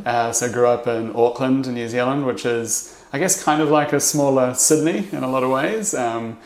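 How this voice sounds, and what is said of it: New Zealand accent. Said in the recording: “originally from New Zealand, you might be able to tell from the accent”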